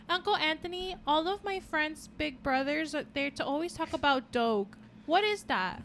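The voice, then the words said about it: Little kid voice with accent. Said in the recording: “Why do I have an accent? ... I don't know why I'm a little kid.”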